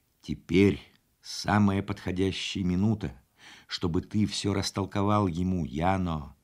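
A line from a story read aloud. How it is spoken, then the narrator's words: Insistent bearded man. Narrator (Russian): Бородатый настойчиво сказал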